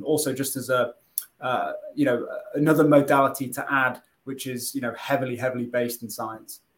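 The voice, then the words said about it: British accent. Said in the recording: “you've got an awesome accent, so who doesn't love to hear someone from the UK talk?”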